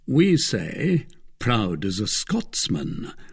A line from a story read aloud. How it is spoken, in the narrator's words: murmured the Duke of Buckingham